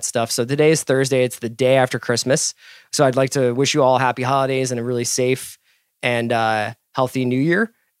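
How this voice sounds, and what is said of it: Strained voice giving out. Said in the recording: “as you can tell. I think my voice is giving out.”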